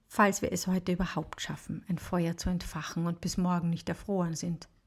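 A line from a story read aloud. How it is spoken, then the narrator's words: Murmuring. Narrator (German): murmelt sie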